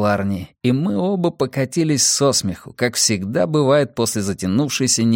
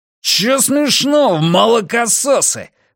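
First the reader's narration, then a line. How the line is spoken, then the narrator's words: Roaring. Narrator (Russian): взревел Ральф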